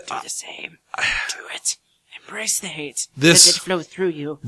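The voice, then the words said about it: Bad Darth Sidious impression. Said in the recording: “worst Darth Sidious impersonation”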